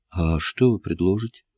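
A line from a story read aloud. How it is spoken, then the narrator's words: Calm question. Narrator (Russian): спросил спокойно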